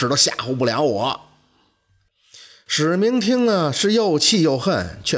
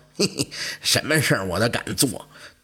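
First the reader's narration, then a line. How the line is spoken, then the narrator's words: Mocking ghost. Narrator (Chinese): 这鬼讥笑他说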